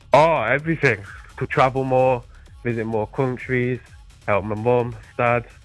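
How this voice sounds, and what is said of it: British accent. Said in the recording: “You got yourself a little bit of an accent ... You're from the old country ... I'm from the UK”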